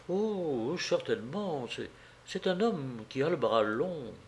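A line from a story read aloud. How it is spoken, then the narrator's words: Murmured to herself. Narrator (French): elle murmura, comme se parlant à elle-même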